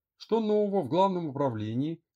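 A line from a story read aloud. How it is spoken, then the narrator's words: Loud shout. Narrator (Russian): громко прокричала Лера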